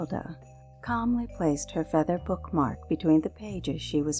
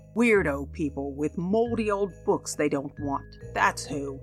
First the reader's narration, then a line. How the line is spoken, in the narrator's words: George snapped